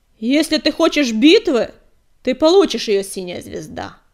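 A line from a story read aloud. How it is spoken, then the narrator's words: Roaring. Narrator (Russian): проревел он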